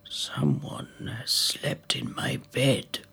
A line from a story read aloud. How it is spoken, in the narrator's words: growled father bear